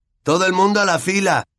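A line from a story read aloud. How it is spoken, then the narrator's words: Shouting to a crowd. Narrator (Spanish): gritó Malfoy a la multitud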